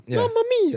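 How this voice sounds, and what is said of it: Cartoonish Italian accent impression. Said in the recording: “your best Italian impression ... That was good ... That's just Mario.”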